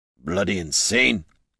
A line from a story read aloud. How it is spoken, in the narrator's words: Gorm muttered